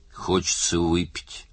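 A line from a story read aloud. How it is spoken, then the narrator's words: Grumbled. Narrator (Russian): пробурчал Оттер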